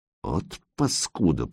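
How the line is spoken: Through clenched teeth. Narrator (Russian): процедил майор

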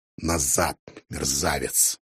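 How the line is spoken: Grumbling. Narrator (Russian): проворчал он

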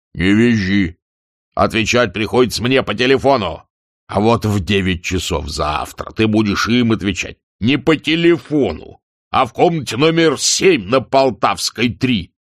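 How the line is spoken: Deep scolding bass. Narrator (Russian): Заместитель редактора, распекавший рекламу, басил

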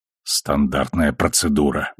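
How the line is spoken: Grumbled. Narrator (Russian): буркнул Келли

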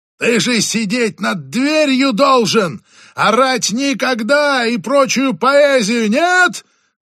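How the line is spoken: Yelling skyward. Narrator (Russian): заорал он небесам

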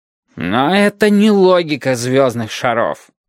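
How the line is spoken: Irritated reply. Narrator (Russian): раздраженно отозвался большой шар

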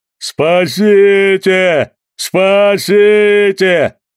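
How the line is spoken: Jolted bull-like roar. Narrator (Russian): Когда его особенно сильно встряхнуло, он заревел бычьим голосом

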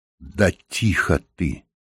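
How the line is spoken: Whisper. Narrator (Russian): прошептал Реми

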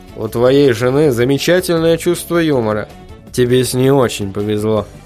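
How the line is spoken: Gloomy remark. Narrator (Russian): мрачно заметил Вильям

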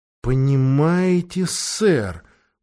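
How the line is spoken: Very slow. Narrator (Russian): очень медленно сказал Фрэнк

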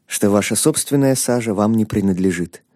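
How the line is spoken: Quiet. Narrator (Russian): тихо добавил священник

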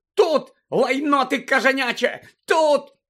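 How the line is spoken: Shrieking. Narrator (Ukrainian): верещала місіс Фіг

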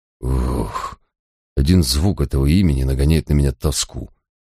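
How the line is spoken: Sighing. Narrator (Russian): вздохнул я

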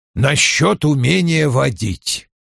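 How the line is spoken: Grumbling mutter. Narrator (Russian): пробурчал Вульф

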